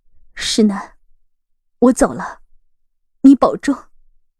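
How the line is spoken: Tearful trembling voice. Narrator (Chinese): 杜恒抹了抹眼泪，声音微颤着说道

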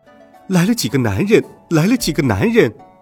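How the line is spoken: Joyful cheering crowd. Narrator (Chinese): 那些人看到唐僧师徒，都鼓掌欢呼起来，眉开眼笑的说道

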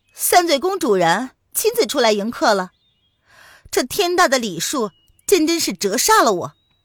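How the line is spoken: Loud. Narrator (Chinese): 蒋灵谦大声的道

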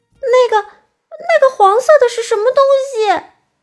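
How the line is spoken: Sudden shout. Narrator (Chinese): 爱哭公主突然大叫了起来

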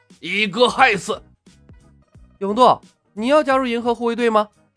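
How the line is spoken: Sudden loud voice. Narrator (Chinese): 永渡忽然高声道

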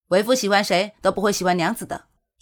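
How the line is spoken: Flustered, suddenly raised voice. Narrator (Chinese): 夏侯玉却有种自己被调戏的感觉，瞬间拔高声音说道

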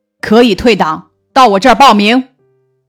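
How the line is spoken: Old man, cold. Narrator (Chinese): 老汉冷冷地说

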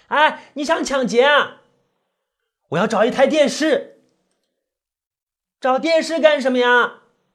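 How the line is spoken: Shouting from behind. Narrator (Chinese): 他在后面对我喊着

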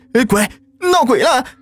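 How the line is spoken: Wailing scream. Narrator (Chinese): 鬼哭狼嚎的喊

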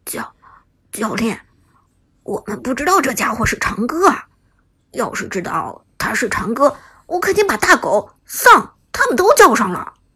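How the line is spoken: Low voice. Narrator (Chinese): 铁血低声说道

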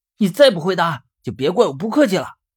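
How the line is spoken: Impatient stern shout. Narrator (Chinese): 我有些不耐烦了，于是朝里面厉声喊道

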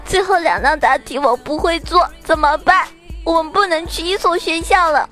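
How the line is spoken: Girl crying. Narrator (Chinese): 这个女生呢哭着说

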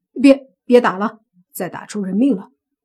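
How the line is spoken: Hurried. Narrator (Chinese): 莫凡急忙说

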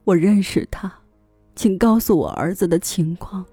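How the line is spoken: Sobbing old man. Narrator (Chinese): 帕维尔大伯抽泣道

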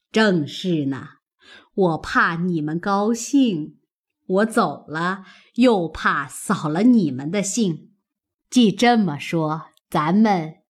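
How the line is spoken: Laughing. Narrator (Chinese): 贾母笑道

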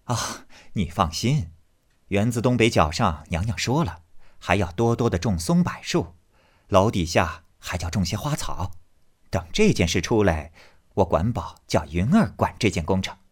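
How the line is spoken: Laughing. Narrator (Chinese): 凤姐儿笑道

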